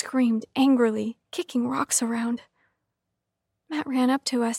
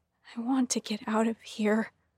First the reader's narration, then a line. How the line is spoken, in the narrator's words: he said, his voice trembling